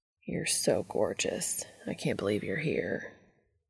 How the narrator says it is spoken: Cass murmurs

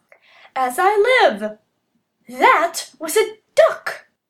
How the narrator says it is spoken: he exclaimed

